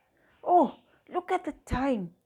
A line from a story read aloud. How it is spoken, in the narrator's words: father exclaims